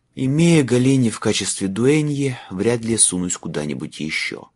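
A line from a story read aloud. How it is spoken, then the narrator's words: Sighing. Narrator (Russian): вздохнул Майлз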